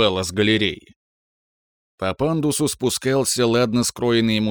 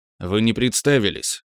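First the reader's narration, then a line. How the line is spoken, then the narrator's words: Cold reply. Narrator (Russian): холодно ответил я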